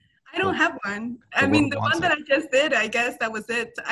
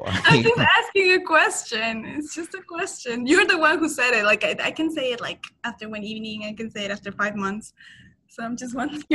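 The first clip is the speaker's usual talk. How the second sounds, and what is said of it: Imitates another person's voice. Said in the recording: “What is this impression of me you're doing? ... you're doing an impression.”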